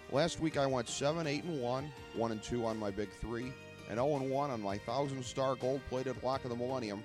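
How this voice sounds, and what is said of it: Raspy, hoarse voice. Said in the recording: “my horrible, lingering, post-illness, raspy voice.”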